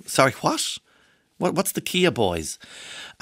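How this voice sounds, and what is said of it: Irish accent with American twang. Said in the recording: “I'm doing my Donny twang because you're Irish, but you kind of talk a little bit like Kerry every now and again. And then you get a nice bit of kind of United States going on... he's got the twang, but in a very nice way”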